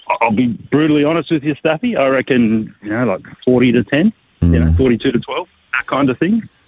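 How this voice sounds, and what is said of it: Australian accent. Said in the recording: “an Australian accent.”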